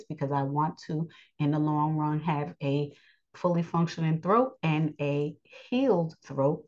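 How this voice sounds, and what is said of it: Slightly raspy, held-back voice. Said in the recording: “I'm still a little um, raspy in my voice. I'm trying not to raise my voice”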